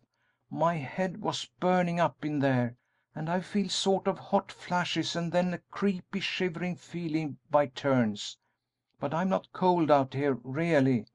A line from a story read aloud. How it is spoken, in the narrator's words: she added earnestly